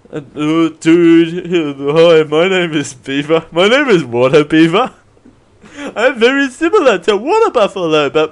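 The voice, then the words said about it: Higher-pitched buck-toothed character voice. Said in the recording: “my voice is a little higher. ... I have to have my teeth out in front of this whole accent”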